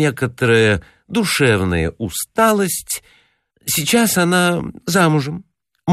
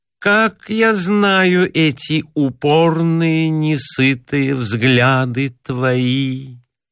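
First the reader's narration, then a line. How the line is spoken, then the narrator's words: Reproachful singsong. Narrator (Russian): укоризненно произнесла чуть нараспев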